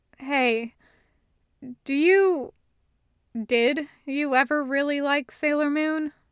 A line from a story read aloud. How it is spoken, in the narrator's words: Ace sighs